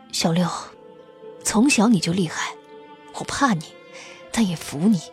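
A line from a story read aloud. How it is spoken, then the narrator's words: Soft, dreamlike murmur. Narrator (Chinese): 高树清的手掌还在流血，声音轻柔的，仿佛梦中呓语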